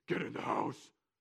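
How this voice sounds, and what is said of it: Gruff, deep, shouting Bane-like voice. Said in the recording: “dad voice ... It's sort of like my Batman Bane thing”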